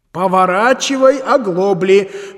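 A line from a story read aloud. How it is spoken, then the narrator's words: Policeman shouting. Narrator (Russian): крикнул полицейский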